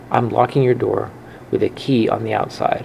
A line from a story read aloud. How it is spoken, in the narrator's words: her mom said